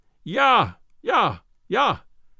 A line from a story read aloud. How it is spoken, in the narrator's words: In a voice of thunder he yelled it